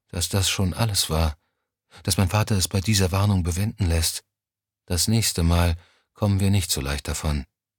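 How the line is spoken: Quiet. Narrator (German): sagte sie schließlich leise

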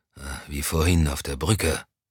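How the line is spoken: Murmured. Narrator (German): murmelte Moussan

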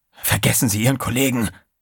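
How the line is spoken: Hissed. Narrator (German): zischte Trey

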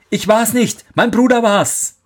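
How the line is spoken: Called out. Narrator (German): rief er

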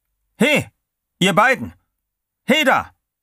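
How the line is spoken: Calling out again. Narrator (German): Wieder rief der Wärter

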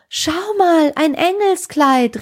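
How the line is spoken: Calling out. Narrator (German): rief sie

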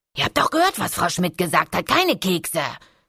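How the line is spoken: Hiss. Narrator (German): zischt Niki

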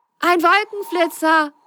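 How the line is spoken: Excited call. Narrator (German): rief Ben begeistert

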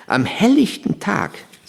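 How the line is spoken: Plain. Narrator (German): sagte meine Mutter

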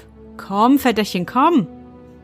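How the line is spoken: Called out. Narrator (German): rief

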